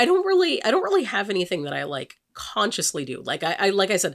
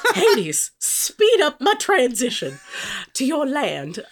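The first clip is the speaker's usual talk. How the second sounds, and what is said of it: Put-on Southern American accent. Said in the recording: “I don't know why I had that accent. ... southern”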